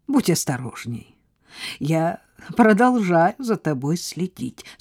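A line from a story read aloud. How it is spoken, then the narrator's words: Laughing. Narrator (Russian): сказал он, также смеясь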